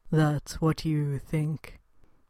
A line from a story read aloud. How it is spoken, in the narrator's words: muttered, rebellious